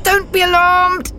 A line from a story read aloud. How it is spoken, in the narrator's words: cried through gritted teeth